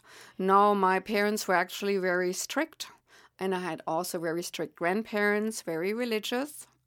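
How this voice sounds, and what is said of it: Heavy German accent. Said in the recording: “As one can hear from my heavy accent, I am indeed German, and obviously I will not be able to relinquish that accent.”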